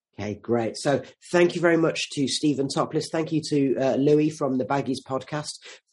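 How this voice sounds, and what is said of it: Croaky voice. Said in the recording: “my voice has gone a bit croaky. It was that Ryan Yates header that did it.”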